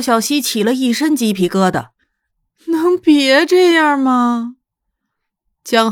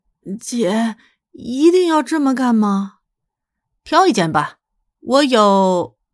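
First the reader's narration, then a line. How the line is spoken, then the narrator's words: Trembling question. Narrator (Chinese): 他干咳了一声，然后颤声问道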